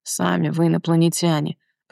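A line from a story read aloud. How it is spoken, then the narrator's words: Grumbled. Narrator (Russian): проворчал он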